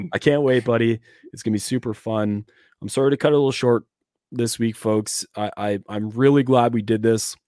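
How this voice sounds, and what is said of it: Hoarse, strained voice. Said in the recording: “hopefully my voice is a little bit worth more tomorrow ... I have a destroyed voice”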